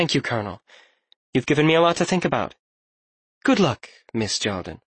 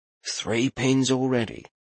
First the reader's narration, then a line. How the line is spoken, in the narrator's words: Landon mumbled